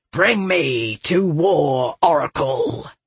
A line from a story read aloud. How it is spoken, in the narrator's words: he growled